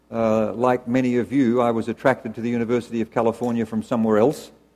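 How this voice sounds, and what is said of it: Australian accent. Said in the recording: “As you can tell from my accent, I don't come from around here originally ... that somewhere else was Australia”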